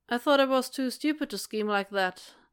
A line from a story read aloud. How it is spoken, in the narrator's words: he asks, keeping his tone light through sheer force of will